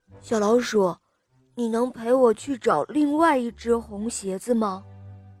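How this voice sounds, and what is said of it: Speaking softly, quiet voice. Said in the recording (Chinese): “他小声地说”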